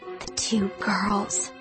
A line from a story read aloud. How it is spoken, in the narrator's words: she murmured